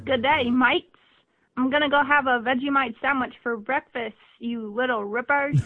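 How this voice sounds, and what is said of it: Put-on Australian accent. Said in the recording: “great Australian accents, we can only give you amazing examples”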